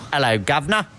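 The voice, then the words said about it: Decent put-on British accent. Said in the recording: “British accent ... That's pretty good. Well done.”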